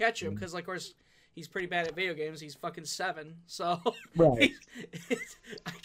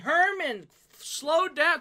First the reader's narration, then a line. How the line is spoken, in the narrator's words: yelling at the TV